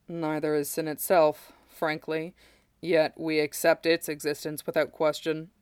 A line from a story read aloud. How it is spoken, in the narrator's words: Sephiroth replied dryly